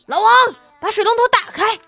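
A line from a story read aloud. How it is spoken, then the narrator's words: Shout. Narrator (Chinese): 大姐冲水房那么一喊呀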